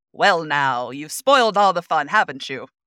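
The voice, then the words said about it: 1920s radio announcer voice. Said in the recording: “1920s radio announcer voice?”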